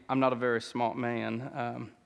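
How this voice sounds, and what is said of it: Weak Forrest Gump accent imitation. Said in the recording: “That was my best Forrest Gump accent. Was that pretty good? Was that halfway decent? No, not very.”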